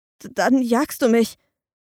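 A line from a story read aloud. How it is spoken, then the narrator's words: Trembling voice. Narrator (German): sagte mit zitternder Stimme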